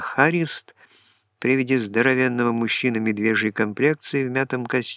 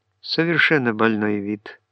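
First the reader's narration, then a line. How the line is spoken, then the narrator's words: Sad confirmation. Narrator (Russian): грустно подтвердил Уиндхэм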